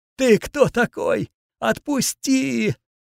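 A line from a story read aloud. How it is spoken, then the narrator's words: Moaning in pain. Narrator (Russian): простонал он сквозь боль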